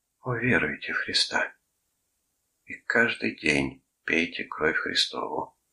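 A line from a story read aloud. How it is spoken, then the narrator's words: Sad whisper. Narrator (Russian): грустно прошептал он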